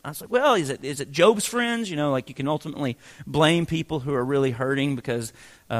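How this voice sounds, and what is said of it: Usual voice. Nothing is said of it.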